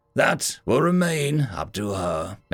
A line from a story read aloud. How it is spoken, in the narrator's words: Major Carnite said, his voice cold